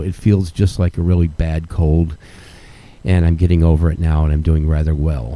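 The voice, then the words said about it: Slightly hoarse, scratchy voice. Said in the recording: “Cough, scratchy throat ... if I sound a little hoarse”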